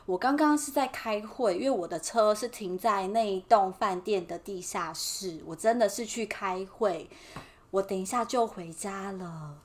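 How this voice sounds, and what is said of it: Timid, quiet hushed voice. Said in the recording (Chinese): “就是很像一只 birdy，就是很俗辣，就赶快回电话，小小声的说”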